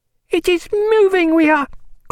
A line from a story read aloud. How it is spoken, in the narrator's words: cried Bridget